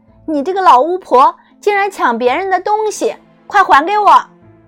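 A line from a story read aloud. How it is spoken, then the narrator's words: Angry shout. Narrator (Chinese): 看见自己的银鞋被抢，多萝西气愤极了，喊道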